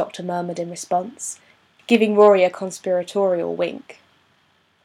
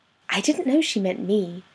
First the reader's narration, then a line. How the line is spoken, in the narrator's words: Amy whispered to her companions